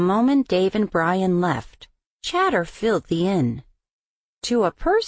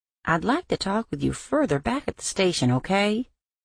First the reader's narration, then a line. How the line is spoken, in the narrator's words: Dave calmly said